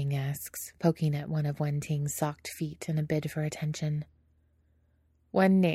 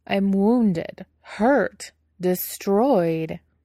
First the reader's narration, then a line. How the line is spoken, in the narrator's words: Wei Ying says, pouting dramatically